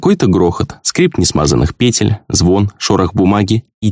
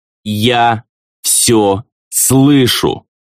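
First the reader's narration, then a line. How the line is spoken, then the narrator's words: Loud, clearly separated words. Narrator (Russian): раздельно и громко произнес Дезраэль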